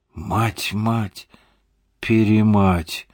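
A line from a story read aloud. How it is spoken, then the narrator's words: Shocked exhale. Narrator (Russian): потрясенно выдохнул Слава Славин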